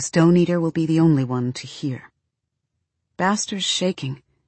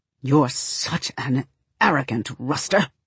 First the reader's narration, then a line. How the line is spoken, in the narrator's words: he snarls through his teeth